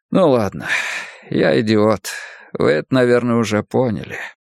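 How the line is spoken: Quiet. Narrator (Russian): тихо сказал он

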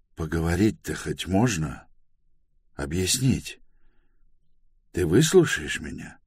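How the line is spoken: Timid, flustered question. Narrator (Russian): растерялся, робко спросил

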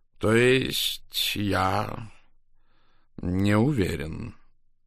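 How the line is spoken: Slow. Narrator (Russian): медленно произнес он

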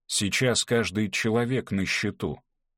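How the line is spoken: Plain. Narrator (Russian): сказал Мартин

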